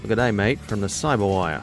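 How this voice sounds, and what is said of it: Poor put-on Australian accent. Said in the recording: “my amazing Australian accent ... Awful.”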